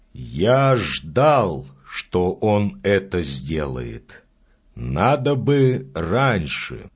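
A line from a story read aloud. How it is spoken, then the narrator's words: Calm. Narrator (Russian): спокойно сказал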